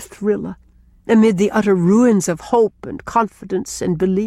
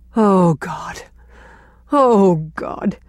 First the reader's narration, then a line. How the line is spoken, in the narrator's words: moaned Gertrude Oliver, wringing her hands